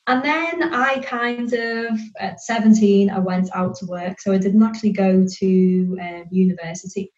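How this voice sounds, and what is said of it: Northern English accent, Liverpool area. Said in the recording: “We went back up to the north near Liverpool ... So hence why my accent is like this and not a Brummie one.”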